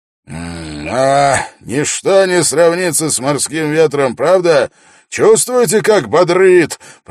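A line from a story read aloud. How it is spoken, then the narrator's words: Roaring. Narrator (Russian): проревел Свенгл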